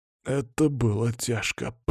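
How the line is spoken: Hoarse rasp. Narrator (Russian): прохрипел Андрей

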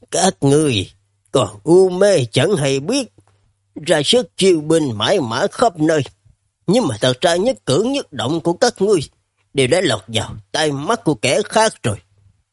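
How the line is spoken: Stern, grave. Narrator (Vietnamese): sắc mặt trầm xuống, nghiêm nghị, nói

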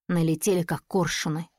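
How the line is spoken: Muttering. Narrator (Russian): бормочет он

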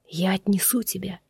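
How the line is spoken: Quiet whisper. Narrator (Russian): тихо шепчет

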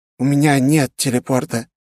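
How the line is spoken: Frightened, trembling voice. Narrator (Russian): с испугом произнес он дрожащим голосом

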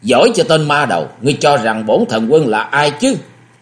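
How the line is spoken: Sudden loud shout. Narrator (Vietnamese): Vũ Nội Thần Quân đột nhiên quát lớn nói

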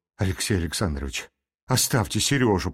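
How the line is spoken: Whispered. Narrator (Russian): прошептала она еще раз

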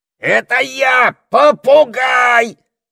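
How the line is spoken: Parrot screeching. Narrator (Russian): завопил попугай

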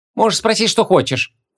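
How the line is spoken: Snorting. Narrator (Russian): фыркнула ученица шумерского мага

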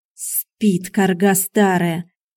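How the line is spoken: Angry hiss. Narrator (Russian): злобно прошипел Борис

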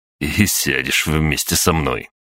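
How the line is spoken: Snorting. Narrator (Russian): хмыкнул Гриша

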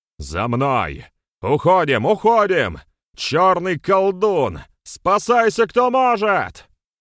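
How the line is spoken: Shouted. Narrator (Russian): кричал он

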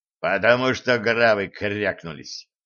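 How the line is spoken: Gloomy gruff dwarf. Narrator (Russian): Мрачно буркнул гном

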